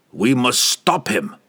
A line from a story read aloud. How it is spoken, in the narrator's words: he snarled at Laval